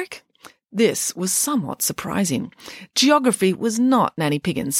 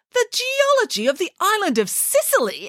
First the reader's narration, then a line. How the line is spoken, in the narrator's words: exclaimed Nanny Piggins